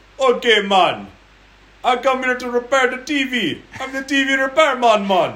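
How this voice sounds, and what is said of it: Put-on Jamaican accent. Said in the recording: “Was that racist for me to do that accent?”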